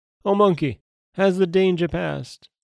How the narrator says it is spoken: The tiger called out

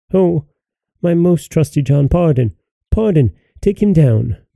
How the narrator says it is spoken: Then the king cried

